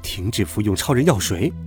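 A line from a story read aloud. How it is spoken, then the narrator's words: Cold. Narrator (Chinese): 他冷冷地说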